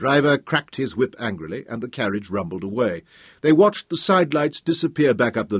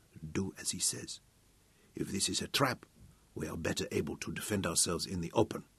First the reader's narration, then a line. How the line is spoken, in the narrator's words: Abberley said softly